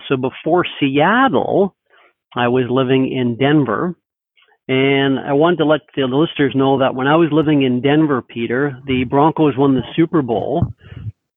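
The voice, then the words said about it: Canadian accent. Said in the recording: “I detect a Canadian accent.”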